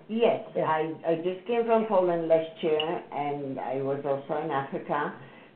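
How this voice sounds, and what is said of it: Foreign-accented English. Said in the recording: “Obviously I have an accent”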